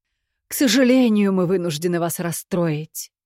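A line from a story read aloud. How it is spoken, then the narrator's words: Theatrical sigh. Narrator (Russian): патетично вздохнул Барт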